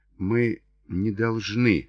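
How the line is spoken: Murmuring. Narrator (Russian): бормотала

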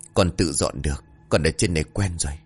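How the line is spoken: Quiet reply. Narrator (Vietnamese): Quang chỉ nhỏ giọng rồi đáp

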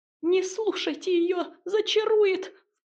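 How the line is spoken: Panicked squeak. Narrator (Russian): в панике пропищал Сидор

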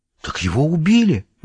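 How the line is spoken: Shocked gasp. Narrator (Russian): выдохнула Карен

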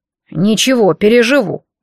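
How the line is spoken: Grumbled reply. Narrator (Russian): проворчала кучка в ответ

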